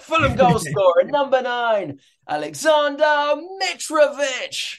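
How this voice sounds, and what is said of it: Stadium announcer voice, stretched name. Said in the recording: “your best impression of announcing a Mitrovic goal ... I always like really push that Mitch right at the end”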